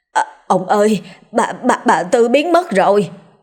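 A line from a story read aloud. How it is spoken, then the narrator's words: Stammering. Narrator (Vietnamese): Mụ thêm lắp bắp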